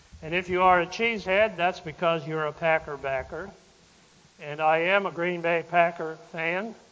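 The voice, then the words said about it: Slight Wisconsin accent. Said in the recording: “I'm just not from these parts, which I'm not, and my accent might just give me away just a little bit. I'm from Wisconsin originally”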